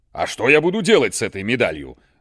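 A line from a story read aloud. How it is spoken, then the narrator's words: Grumbling under breath. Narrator (Russian): ворчал себе под нос начальник охраны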